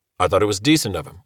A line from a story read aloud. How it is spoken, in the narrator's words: Walk said